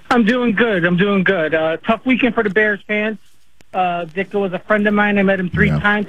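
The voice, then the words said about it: Strong regional accent, like SNL skit. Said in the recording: “you sounded like an SNL skit right there, pal ... when I get sad and excited, the accent comes out a little more”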